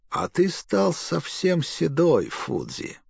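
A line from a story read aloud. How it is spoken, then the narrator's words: Said sadly. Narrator (Russian): сказал печально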